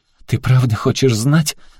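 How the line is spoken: Tearful defiant question. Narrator (Russian): сквозь слезы спросила Аляска с вызовом в голосе

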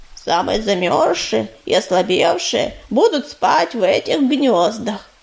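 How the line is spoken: Creaky voice. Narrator (Russian): проскрипел Корявый

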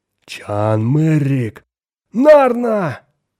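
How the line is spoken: Joyful shout. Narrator (Russian): радостно закричал Хоик

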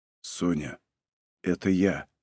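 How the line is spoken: Whisper. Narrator (Russian): шепотом сказал Малинин

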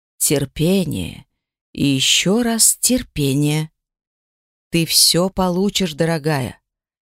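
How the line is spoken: Barely audible. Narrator (Russian): Еле слышно проговорил

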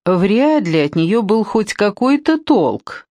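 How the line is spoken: Laughing. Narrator (Russian): рассмеялся он

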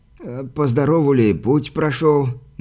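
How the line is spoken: Trembling voice. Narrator (Russian): дрогнувшим голосом спросил привратник

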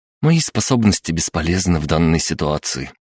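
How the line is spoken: Upset sigh. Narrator (Russian): расстроенно вздохнула Кристина

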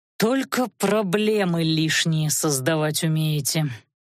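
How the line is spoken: Said through teeth. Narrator (Russian): процедил он

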